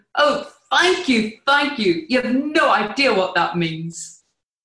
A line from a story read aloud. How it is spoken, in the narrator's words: shouting